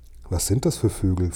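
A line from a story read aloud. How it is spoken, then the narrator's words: Plain question. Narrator (German): fragte ich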